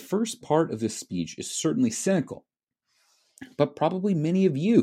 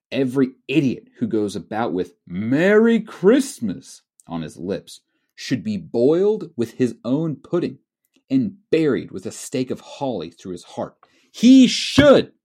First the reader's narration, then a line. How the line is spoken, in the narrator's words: said Scrooge indignantly